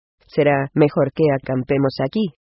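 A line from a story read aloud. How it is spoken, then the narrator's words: Plain. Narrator (Spanish): dijo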